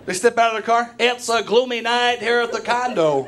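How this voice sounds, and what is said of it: Sports announcer voice. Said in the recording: “announcer voice ... I love that voice ... still use that voice”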